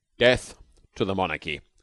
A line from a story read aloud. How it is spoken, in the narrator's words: corrected the long man coldly